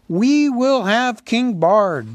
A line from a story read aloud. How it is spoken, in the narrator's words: the people near at hand shouted in reply